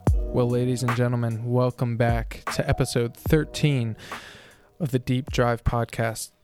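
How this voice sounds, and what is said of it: Hoarse, strained sick voice. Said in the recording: “I am losing my voice because I am sick ... my throat is killing me”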